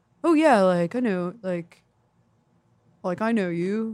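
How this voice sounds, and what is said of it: Imitates a college frat guy. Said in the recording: “That's my impression of frat guys in college.”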